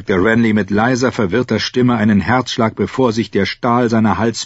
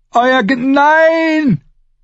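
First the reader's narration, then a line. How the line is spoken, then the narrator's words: Terrified childlike scream. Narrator (German): schrie Brienne die Blaue, als sie den tödlichen Strom bemerkte, und sie klang wie ein verängstigtes kleines Mädchen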